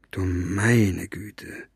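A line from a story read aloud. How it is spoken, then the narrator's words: Murmuring. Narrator (German): murmelte er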